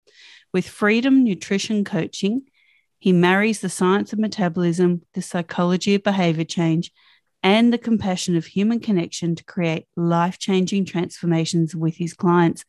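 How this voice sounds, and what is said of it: Australian accent. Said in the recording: “it's so awesome to hear an Aussie accent again”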